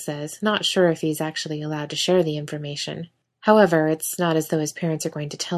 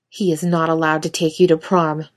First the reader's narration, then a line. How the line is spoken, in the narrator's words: Michael says sharply